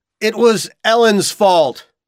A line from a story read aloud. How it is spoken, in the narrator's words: he shouted